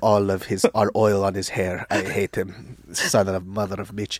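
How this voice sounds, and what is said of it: Put-on Saudi accent. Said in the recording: “my Saudi impression”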